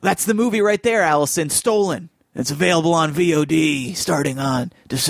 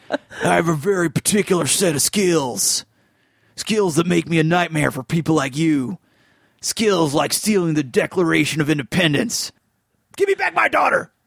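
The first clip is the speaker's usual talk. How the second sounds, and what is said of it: Nicolas Cage impression. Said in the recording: “It's a good Nicolas Cage impression. ... Solid, yeah.”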